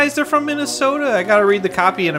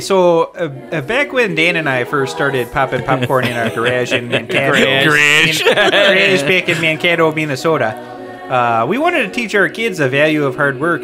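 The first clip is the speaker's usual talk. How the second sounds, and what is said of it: Put-on Minnesota accent. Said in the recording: “in a Minnesota voice.”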